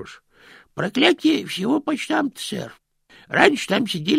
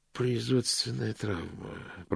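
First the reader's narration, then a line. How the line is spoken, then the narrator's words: Muttering. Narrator (Russian): пробормотал Мокриц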